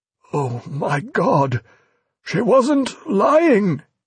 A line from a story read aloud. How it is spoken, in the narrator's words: he groaned, sick with pain and fear alike